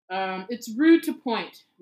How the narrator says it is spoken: Ron snapped at a particularly minuscule first year

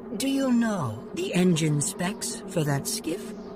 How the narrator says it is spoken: Calmly, Jorah said

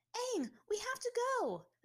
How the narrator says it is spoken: Azula shouted down to him from Appa's reins

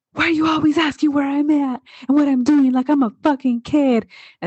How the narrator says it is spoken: blows up and he yells

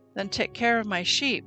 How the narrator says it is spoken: Yeshua said

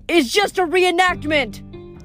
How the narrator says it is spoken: Tour guides kept yelling

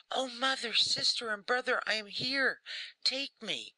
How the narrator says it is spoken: he cried

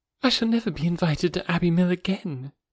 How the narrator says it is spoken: was said in a rather sorrowful tone

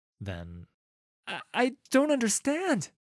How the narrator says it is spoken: the voice stammers

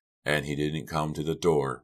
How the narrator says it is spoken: Red asked

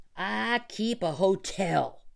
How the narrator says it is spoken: he shouted

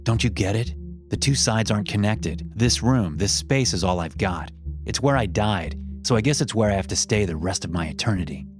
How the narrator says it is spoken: he muttered angrily

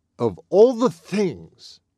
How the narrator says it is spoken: exclaimed Mr

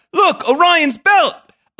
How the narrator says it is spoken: shouts

